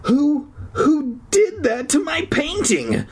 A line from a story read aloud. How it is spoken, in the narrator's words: Brian cried out